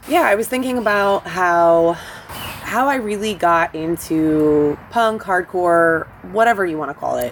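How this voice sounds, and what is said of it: Slightly hoarse voice. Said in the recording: “I was screaming ... So, if I'm a little hoarse,”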